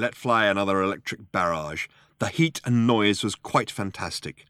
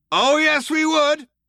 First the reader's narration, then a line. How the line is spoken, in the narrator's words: shouted the cop